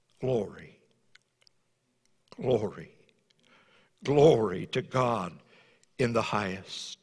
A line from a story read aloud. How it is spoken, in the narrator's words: He began quietly, pausing between the words